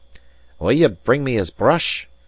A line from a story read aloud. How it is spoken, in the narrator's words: cried Allen fiercely